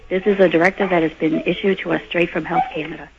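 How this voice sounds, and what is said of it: Voice suddenly giving out. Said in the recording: “my voice went all of a sudden”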